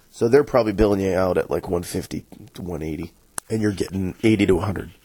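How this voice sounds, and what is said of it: Voice in poor condition. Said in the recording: “sorry for my voice. ... Hopefully tomorrow it'll be a little better.”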